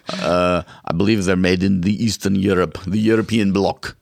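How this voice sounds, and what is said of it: Terrible put-on accent. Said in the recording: “Oh, that's a terrible accent.”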